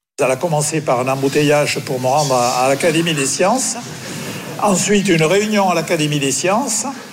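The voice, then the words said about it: Southwestern French accent. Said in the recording (French): “Il a gardé son accent du sud-ouest”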